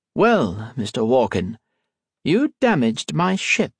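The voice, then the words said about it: Slight unfamiliar foreign accent. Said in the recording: “with a slight, unfamiliar accent”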